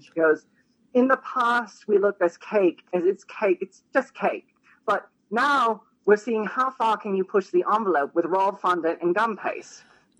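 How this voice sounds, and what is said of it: Imitates another person's accented voice. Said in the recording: “they can't understand her accent. ... I'll try to do my best Carrie Vincent impression.”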